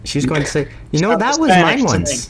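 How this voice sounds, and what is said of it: Weak attempt at a Brazilian accent. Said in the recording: “I can't do a Brazilian accent worth shit ... It's not very close ... You have to, like, hold out your Brazilian consonants a little bit.”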